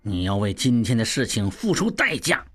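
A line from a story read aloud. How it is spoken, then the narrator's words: Low, hateful voice. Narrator (Chinese): 望柏心中恨极，又低声道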